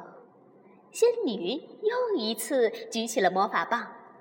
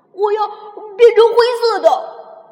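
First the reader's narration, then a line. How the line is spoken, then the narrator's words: Exclaiming. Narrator (Chinese): 哈瓦尔叫道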